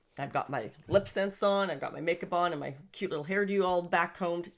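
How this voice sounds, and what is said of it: Upbeat, energetic voice. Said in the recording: “as you can hear from my voice, I'm very up. I'm very positive.”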